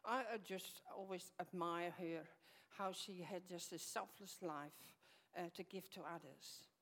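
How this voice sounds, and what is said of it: Dutch Frisian accent. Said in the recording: “As you can hear, I got an accent. ... myself, come from Holland, and from a part of Holland where they speak a different language”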